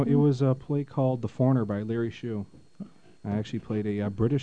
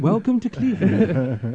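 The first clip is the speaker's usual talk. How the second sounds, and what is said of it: Put-on Cockney accent. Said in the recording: “I had my Cockney accent in perfect form. ... Have him do the rest of the show like that.”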